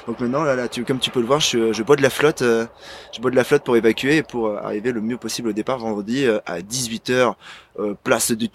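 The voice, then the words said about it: Put-on Provençal French accent. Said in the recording (French): “pourquoi prends un accent provençal comme ça d'un coup”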